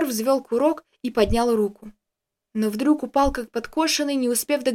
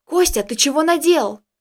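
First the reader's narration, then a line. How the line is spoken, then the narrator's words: Frightened. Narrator (Russian): испуганно произнес я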